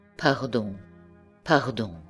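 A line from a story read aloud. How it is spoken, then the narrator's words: Murmur. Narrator (French): murmura-t-il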